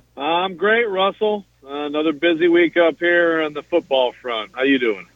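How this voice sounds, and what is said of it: Tired-sounding voice. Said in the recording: “You sound tired”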